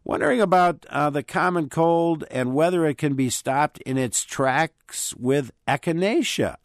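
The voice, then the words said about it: Sick, cold-affected voice. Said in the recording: “I have one right now, as you can probably hear... my voice is a little different today”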